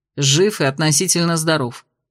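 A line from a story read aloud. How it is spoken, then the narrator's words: Gloomy mutter. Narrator (Russian): буркнул Кирсан мрачнее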